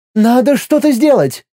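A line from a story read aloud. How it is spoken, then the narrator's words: Exclaimed. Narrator (Russian): воскликнула миром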